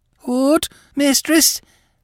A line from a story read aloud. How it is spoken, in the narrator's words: cried the girl